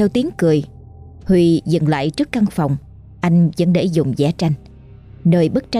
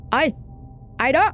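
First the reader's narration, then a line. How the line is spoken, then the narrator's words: Loud voice. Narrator (Vietnamese): Anh lớn tiếng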